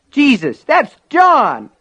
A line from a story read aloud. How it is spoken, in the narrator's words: Norris cried